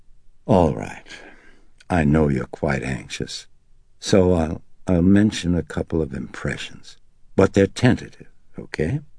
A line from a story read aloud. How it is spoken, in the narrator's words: the psychiatrist emitted a sigh, and then, relenting, looked up and said